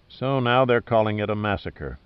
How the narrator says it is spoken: Pitt sighed

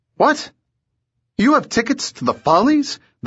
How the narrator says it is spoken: they blurted in amazement

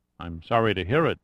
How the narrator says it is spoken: said Pitt

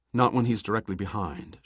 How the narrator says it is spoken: she said calmly

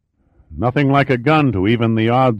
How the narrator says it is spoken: Giordino sighed, leaning back comfortably against the seat

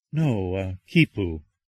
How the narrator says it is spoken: Shannon replied softly

